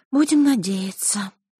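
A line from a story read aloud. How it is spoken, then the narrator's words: Girl sighing. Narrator (Russian): вздохнула девочка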